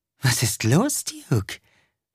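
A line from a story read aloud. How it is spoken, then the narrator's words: Purred. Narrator (German): schnurrte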